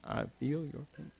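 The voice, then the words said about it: Weak Bill Clinton impression. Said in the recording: “My Bill Clinton accent is not very good.”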